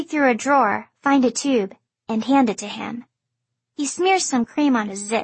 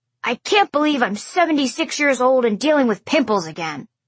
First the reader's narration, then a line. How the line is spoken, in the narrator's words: he grumbles